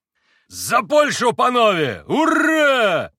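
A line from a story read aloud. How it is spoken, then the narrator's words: Shouted toast. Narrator (Russian): прокричал Митя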